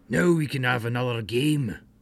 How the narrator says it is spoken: Uncle Clem cried

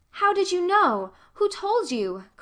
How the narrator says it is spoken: cried Anne disappointedly, vexed that her great revelation had been anticipated

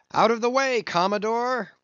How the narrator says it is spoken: cried one

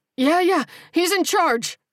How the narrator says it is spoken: the guy screamed

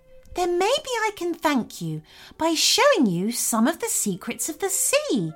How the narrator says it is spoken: exclaimed Bella excitedly

